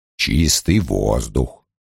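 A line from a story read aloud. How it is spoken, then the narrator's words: Sighing. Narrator (Russian): вздохнул Лойл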